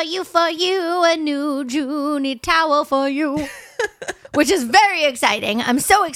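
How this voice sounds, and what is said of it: Usual voice. Nothing is said of it.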